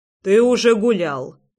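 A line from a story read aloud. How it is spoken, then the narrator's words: Stern. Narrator (Russian): строго проговорил Рома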